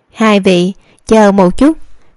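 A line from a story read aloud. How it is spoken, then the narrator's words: Smiling middle-aged woman. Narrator (Vietnamese): Lão bản là một lão phụ nhân khoảng 40-50 tuổi, mỉm cười nói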